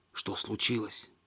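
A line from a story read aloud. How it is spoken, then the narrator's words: Whispered question. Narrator (Russian): шепотом спросил он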